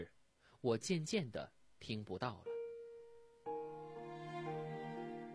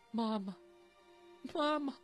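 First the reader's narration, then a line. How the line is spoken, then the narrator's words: Crying. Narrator (Chinese): 我哭了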